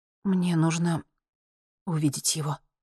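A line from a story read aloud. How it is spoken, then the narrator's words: Quiet. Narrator (Russian): тихо сказала она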